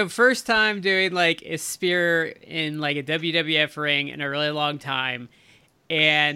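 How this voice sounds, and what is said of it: Usual voice. Nothing is said of it.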